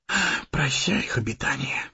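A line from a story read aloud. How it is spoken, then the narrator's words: Whisper. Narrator (Russian): прошептал Сэмми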